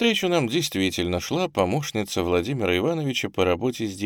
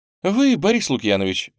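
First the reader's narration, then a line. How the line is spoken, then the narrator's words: Joyful exclamation. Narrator (Russian): радостно воскликнула она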